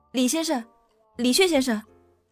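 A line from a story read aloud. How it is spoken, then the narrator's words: Terrified loud cry. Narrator (Chinese): 石凡言终于感到无比的恐惧，放声呼喊起来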